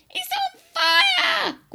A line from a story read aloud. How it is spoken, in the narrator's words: Grandma yelled